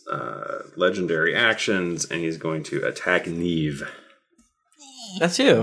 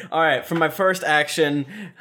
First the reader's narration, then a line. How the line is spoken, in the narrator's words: I scream